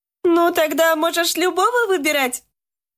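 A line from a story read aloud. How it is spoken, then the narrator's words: Cheerful nurse. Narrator (Russian): весело заметила медсестра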